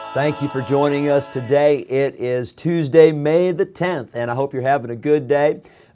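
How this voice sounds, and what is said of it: Strained, failing voice. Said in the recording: “As you can tell, my voice is not a whole lot better, but it's still here ... Sometimes when it goes, it gets worse ... I'm trying to rest it”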